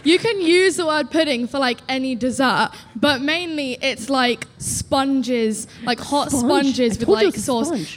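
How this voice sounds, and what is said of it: British accent. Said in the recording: “the accent's legit ... That was real.”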